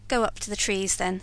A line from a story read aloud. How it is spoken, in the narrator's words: said I